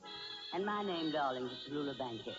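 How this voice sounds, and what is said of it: Deep voice. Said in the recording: “Got a deep voice on him”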